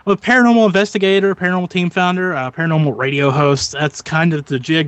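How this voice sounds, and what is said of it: Western Pennsylvania accent. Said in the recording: “I'm from Western Pennsylvania, if you people were wondering where the accent's from, because I get that a lot.”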